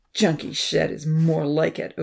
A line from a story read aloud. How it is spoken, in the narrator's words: Odin growled